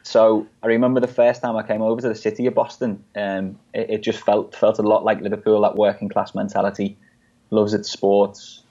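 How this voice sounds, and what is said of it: English accent. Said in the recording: “You still have the English accent, not the Boston accent.”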